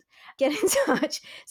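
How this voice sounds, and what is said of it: Posh BBC English accent. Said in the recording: “That sounds better in a BBC accent.”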